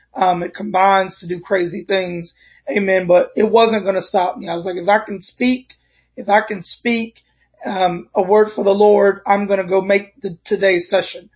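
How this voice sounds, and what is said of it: Crackly, congested voice. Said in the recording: “My voice is a little bit crackly with the air and my sinuses and the weather.”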